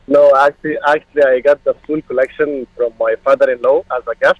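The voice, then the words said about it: Egyptian accent. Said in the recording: “are you Egyptian? I just heard the accent. Egyptian?”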